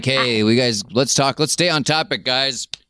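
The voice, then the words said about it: Imitates another person's voice. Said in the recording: “my Adam impression”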